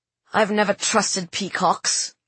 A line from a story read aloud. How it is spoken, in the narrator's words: growled the man